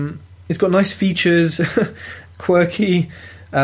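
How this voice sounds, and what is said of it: Usual voice. Nothing is said of it.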